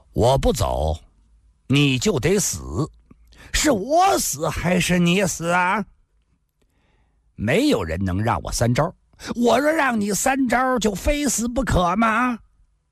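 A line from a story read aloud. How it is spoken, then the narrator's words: Cold. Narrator (Chinese): 阿飞冷冷地说道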